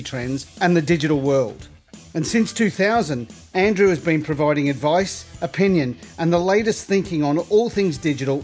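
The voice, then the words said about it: Australian accent. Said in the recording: “Nice to hear another Australian accent.”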